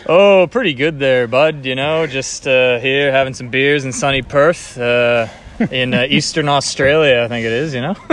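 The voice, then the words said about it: Canadian accent. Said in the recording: “there's actually a Canadian accent they may be hearing.”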